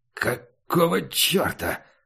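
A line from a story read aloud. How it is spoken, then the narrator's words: Hoarse devilish voice. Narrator (Russian): сказал дьявол хрипло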